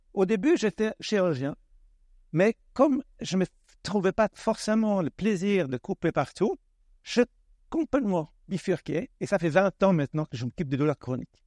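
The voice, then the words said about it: Slight Swedish accent in French. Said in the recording (French): “je suis suédois d'origine, ça s'entend, hein, petit accent”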